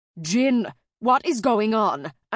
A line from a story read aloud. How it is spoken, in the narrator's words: I shouted